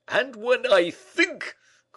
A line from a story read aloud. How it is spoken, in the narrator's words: cried Porthos